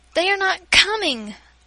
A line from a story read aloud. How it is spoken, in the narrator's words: I cried impatiently